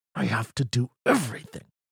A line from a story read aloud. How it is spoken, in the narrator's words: he muttered into the darkness